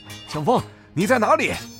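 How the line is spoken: Sudden loud roar. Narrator (Chinese): 白虎忽然大吼一声

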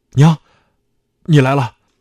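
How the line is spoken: Startled cry. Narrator (Chinese): 啊的一声，叫道

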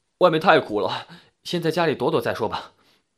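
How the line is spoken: Sighing, resigned. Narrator (Chinese): 铁蛋叹了口气说

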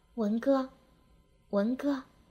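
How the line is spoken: Dazed murmured calling. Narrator (Chinese): 痴痴地，口里喃喃地叫道

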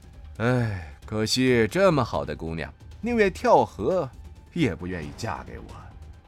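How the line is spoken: Sighing. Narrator (Chinese): 白虎只是在桥上叹息了一声

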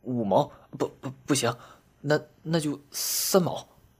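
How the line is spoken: Hurried stammering. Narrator (Chinese): 山里人连忙结结巴巴地说

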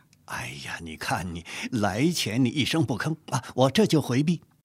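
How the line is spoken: Laughing. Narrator (Chinese): 钱都笑着说

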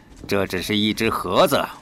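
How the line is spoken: Smiling. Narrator (Chinese): 又笑了笑

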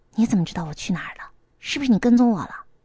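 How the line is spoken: Whispered question. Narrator (Chinese): 小声的问

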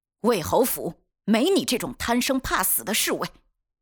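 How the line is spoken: Harsh, fierce rebuke. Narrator (Chinese): 袁彻面色狠厉，厉声斥责

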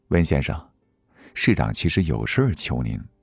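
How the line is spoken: Man, lowered voice. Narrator (Chinese): 那男子压低了声音

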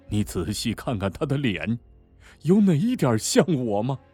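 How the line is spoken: Wry. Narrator (Chinese): 卞才苦笑了一下

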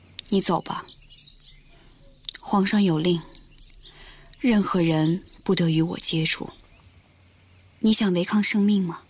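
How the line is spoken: Calm, flat reply. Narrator (Chinese): 明威的身体抖了一下，他定了定神，淡淡地回答

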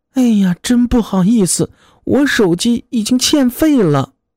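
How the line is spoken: Girl sighing. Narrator (Chinese): 姑娘只是叹气儿

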